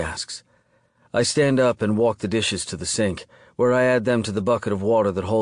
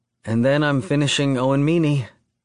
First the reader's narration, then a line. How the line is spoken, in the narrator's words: she sighs